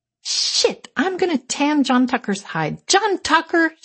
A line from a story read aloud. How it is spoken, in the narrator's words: yelled